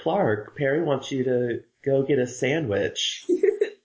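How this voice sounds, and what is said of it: Imitates Lois character's voice. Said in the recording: “best Lois impression”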